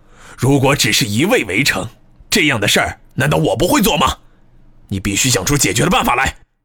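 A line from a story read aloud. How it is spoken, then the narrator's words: Sudden furious roar. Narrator (Chinese): 耶律糊涂树突然咆哮道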